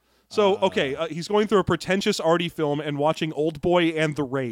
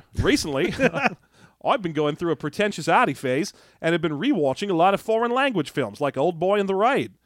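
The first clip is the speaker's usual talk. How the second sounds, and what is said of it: Terrible put-on Australian accent. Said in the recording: “my terrible Australian accent”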